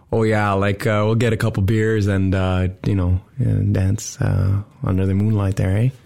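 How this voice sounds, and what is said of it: Put-on Ottawa Valley Canadian accent. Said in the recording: “in the valley, the Ottawa Valley, people talk amazing... but it's not good... I just didn't want to give a bad impression of the Ottawa Valley.”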